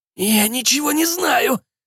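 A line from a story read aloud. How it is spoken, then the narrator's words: Groan. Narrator (Russian): простонал Кэп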